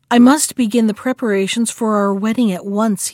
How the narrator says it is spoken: he said

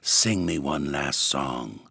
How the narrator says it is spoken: whispered

